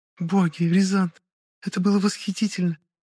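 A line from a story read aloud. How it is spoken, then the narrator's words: Sobbing. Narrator (Russian): всхлипнула моя возлюбленная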